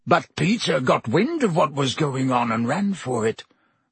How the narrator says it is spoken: croaked Black

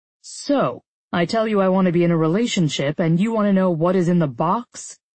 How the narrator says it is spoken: He chuckled

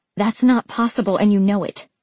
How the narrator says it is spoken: I snapped

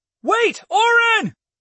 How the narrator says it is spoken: I yelled

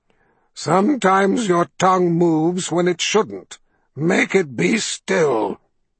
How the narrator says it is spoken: commanded in a dry rasp

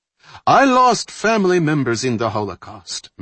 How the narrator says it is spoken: Mendeleev said, his voice still reasonable

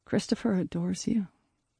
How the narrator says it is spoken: I said softly

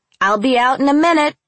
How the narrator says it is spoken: I shouted

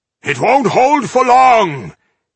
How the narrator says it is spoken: he shouted to Goda

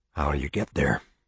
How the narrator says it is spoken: said, whispering down the barrel

